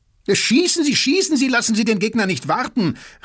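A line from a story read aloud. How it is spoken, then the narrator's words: Shouted in extreme agitation. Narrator (German): rief Drosdorf in äußerster Erregung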